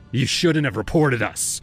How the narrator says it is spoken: he spat

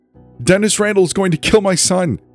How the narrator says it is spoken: shouted

